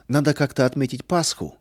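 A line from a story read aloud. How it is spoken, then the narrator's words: Cheerful. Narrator (Russian): весело сказал Арам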